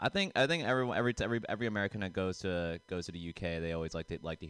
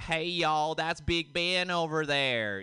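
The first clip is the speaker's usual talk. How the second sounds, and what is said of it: Put-on Texan American accent. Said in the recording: “I had to sound a bit more American. ... So now I'm Texan.”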